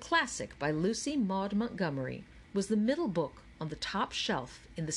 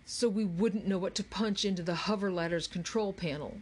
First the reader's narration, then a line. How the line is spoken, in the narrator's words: grumbled Charles